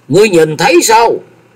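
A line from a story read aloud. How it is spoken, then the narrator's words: Sudden loud shout. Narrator (Vietnamese): Từ Thăng bỗng cao giọng quát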